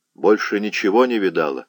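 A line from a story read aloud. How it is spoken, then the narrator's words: Plain. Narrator (Russian): спросил он ее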